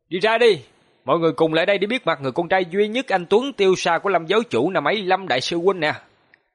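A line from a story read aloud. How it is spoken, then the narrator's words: Loud shout. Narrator (Vietnamese): Hoàng Long hướng về phía khu rừng hét lớn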